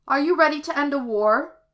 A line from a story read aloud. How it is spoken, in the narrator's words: she cried